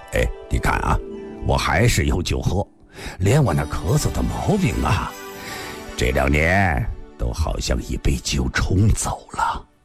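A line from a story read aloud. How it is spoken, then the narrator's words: Smiling, laughing. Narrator (Chinese): 带着笑说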